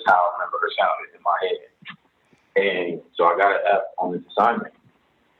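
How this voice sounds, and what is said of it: Usual voice. Nothing is said of it.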